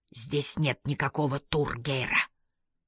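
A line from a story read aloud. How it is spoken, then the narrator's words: Hissed, attacker. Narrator (Russian): прошипел нападавший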